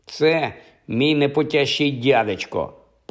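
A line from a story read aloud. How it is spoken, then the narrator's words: Angry explanation. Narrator (Ukrainian): пояснив Ніл, сердито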